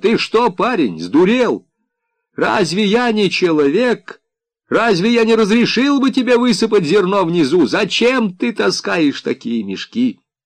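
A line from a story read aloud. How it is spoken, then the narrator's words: Exasperated shouting man. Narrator (Russian): приемщик не выдержал и закричал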